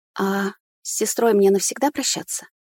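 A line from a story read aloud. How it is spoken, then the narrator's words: Trembling question. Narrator (Russian): дрогнувшим голосом спросила я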